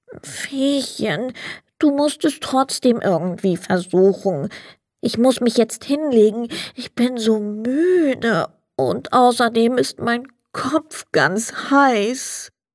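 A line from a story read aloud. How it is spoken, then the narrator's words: Sad. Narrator (German): Der Sandmann sagte traurig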